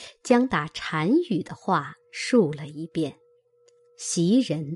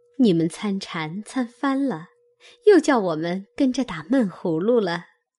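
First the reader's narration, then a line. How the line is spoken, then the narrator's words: Laughing. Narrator (Chinese): 袭人笑道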